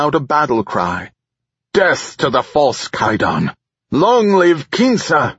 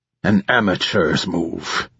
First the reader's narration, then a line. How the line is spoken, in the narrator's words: he sneered